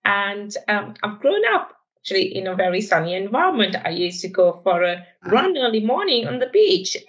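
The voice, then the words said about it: Sri Lankan English accent. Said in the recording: “I'm originally from Sri Lanka, if you're trying to place my accent.”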